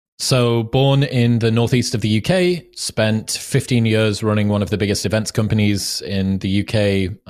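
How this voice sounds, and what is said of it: Northeast English accent. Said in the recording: “the cool accent”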